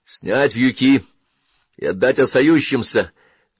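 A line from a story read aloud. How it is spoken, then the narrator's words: Shouted command. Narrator (Russian): крикнул он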